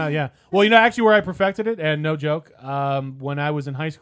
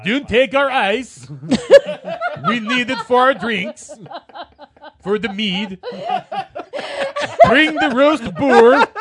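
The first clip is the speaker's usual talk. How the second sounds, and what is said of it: Put-on accent. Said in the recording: “That's the best accent I can do.”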